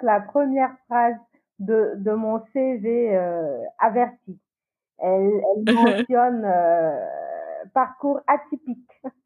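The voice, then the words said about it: Ivorian-accented French. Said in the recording (French): “tu as un accent ivoirien”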